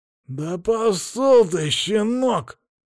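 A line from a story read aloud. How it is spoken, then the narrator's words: Growl through teeth. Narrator (Russian): прорычал сквозь зубы мужик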